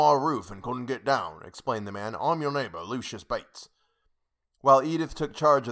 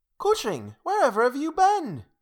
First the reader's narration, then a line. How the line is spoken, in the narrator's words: cried Edith Halbin